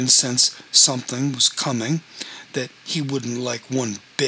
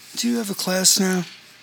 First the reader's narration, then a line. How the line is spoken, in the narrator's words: nervously said